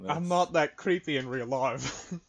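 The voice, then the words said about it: Imitates another person with accent. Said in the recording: “Why did I give you an accent?”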